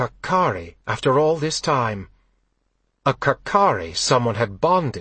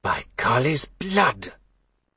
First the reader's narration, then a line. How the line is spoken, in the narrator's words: Gareth breathed